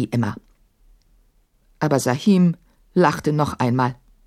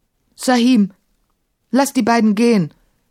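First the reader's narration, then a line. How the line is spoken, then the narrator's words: Calling out. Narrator (German): rief Maimun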